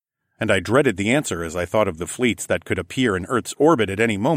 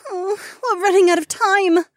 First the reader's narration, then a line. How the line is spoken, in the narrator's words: she whimpered